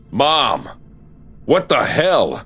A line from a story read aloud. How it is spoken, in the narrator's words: I yelled, storming into the living room